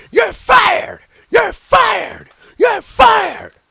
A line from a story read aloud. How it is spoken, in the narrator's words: But Paulie Dangerously is screaming on the outside